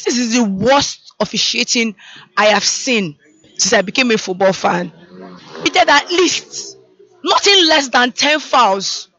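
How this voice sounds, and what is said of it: Hoarse, strained voice. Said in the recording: “I've lost my voice.”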